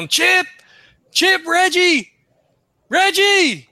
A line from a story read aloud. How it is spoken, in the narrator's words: he just starts yelling